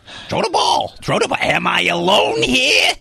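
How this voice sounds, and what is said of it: Imitates another person's voice. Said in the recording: “Gilbert Godfrey impression ... He was a dog's voice”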